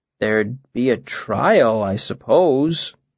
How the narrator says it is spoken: I said slowly

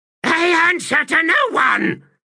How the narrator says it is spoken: Another shriek, the echoes racing

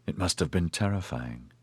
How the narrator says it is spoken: Corilin said sadly

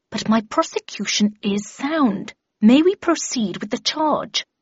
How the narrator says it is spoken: replied through gritted teeth

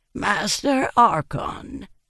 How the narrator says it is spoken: said in a wheezy voice

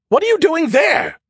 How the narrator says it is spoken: His voice was a disbelieving screech

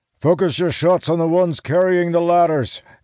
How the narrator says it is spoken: Elias shouts from his place on the tower

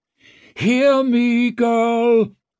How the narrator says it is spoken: Carib's voice boomed and echoed as if from a long way off

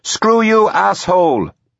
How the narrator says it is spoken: Susie shouted

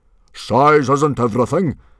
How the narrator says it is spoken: boomed Stoic so loudly that you could have heard him several beaches away

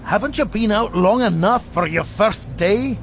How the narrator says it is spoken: Robert the Fox said, somewhat desperately

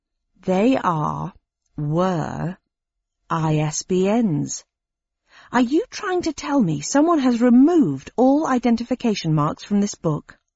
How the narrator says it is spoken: I said slowly

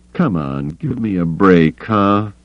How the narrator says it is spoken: He pleaded

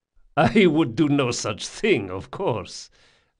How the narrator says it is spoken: laughed Don Salvara

